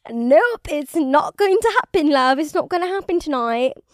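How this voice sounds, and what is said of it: Put-on British accent. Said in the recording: “this British accent”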